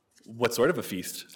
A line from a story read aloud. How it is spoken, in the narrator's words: asked Bridget